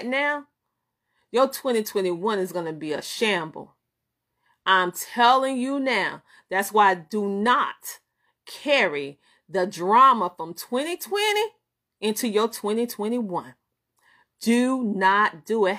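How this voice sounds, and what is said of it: Southern American twang. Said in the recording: “I'm Southern, and you know I have that Southern twang.”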